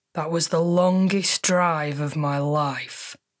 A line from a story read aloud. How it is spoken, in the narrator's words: he groaned